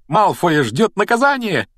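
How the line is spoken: Joyful shout. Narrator (Russian): радостно выкрикнула она

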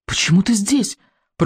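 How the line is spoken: Terrified whisper. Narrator (Russian): прошептал Икинг, белый от ужаса

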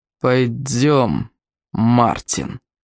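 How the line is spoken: Growl. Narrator (Russian): прорычал он

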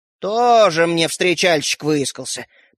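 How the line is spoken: Grumbling grandmother. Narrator (Russian): проворчала бабушка

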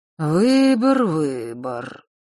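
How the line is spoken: Gloomy dazed mutter. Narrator (Russian): мрачно пробормотал Нортон-старший, словно в забытии

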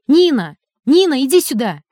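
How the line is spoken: Sudden shout. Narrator (Russian): вдруг крикнула

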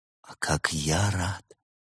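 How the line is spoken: Whisper. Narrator (Russian): прошептал он

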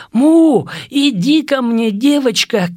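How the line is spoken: Shout. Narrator (Russian): крикнул я

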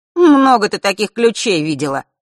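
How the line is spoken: Displeased snort. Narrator (Russian): недовольно хмыкнул Фэш

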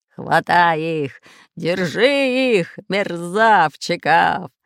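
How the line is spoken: Pirate's growling shout. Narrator (Russian): рычал рыжебородый пират Буль-Буль

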